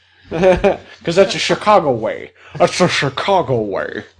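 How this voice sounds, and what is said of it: Imitates another person's voice. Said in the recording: “That's Sean Connery from The Untouchables.”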